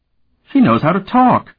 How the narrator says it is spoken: he exclaimed

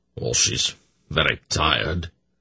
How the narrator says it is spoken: Durnick replied wearily

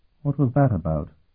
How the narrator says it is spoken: Sophronia asked wearily

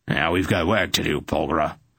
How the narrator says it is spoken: he growled

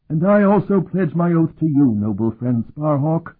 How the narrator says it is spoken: the old man cried in an excess of enthusiasm

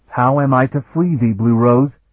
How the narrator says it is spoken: Sparhawk asked urgently

